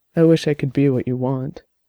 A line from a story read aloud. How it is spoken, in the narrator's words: Quietly, he said